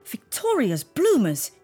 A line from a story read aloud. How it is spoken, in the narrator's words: yelled